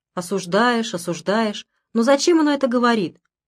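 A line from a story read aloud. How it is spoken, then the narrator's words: Meek, guilty tone. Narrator (Russian): таким покорно виноватым тоном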